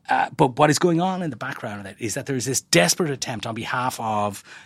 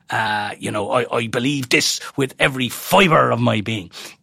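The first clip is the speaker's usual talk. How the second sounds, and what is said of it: Poor imitation of another person's accent. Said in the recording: “That's the worst accent you've done so far ... It needs some work.”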